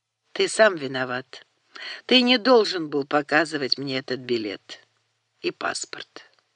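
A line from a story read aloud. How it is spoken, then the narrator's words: Quiet speech. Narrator (Russian): тихо сказал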